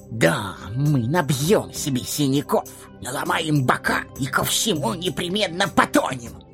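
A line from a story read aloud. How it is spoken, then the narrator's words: Grumbling. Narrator (Russian): ворчали они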